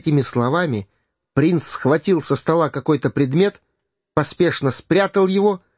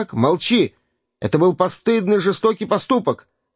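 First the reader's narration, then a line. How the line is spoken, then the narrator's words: Little prince shouting angrily. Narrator (Russian): крикнул маленький принц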